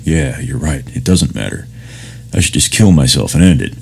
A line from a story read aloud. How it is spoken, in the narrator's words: mumbling back